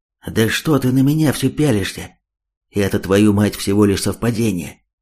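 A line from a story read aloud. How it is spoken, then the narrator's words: Angry whisper. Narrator (Russian): Зло отчего-то шепотом ответил тот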